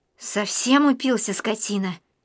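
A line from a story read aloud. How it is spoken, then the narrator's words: Tearful exclamation. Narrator (Russian): Лида еле сдерживая слезы, воскликнула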